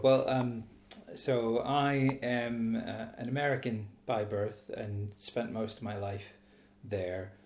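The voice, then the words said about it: American accent, not local English. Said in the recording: “that's probably not a Lee-on-Solent accent you've got there”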